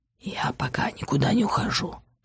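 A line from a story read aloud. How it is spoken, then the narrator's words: Whisper. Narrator (Russian): шепнул он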